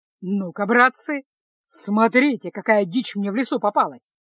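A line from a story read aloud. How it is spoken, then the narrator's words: Pleased male announcement. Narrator (Russian): Довольным голосом объявил разбойник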